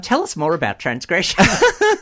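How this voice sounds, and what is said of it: Formal job interviewer voice. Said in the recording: “in my best job interview voice”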